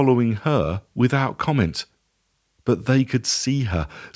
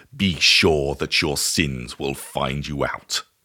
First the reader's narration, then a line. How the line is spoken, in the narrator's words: it sneered